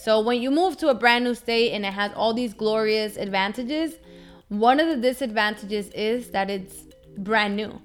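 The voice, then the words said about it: Hispanic accent. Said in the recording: “Forgive that Hispanic accent.”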